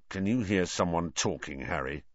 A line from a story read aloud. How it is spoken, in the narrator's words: growled Ron